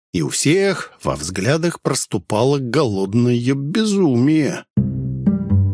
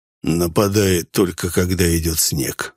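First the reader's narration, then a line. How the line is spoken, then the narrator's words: Plain. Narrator (Russian): сказал Гомон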